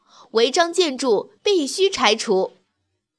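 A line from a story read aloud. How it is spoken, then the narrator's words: Loud shout. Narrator (Chinese): 他大声喊道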